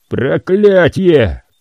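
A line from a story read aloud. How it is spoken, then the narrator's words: Roared. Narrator (Russian): проревел он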